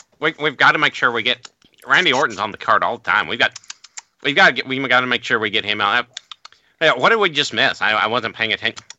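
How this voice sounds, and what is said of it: Buck-toothed cartoon beaver voice. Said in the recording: “Get your impression ready. ... The Bucky Beaver one.”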